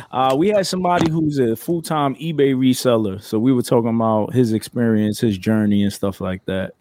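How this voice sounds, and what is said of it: New York Bronx accent. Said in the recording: “That's your accent, bro ... That's BX, man. You know me from New York, man. We got that accent ... Nah, that's the Bronx.”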